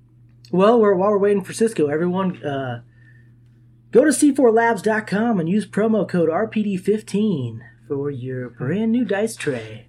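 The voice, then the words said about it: Smooth announcer radio voice. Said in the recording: “That was actually good radio voice.”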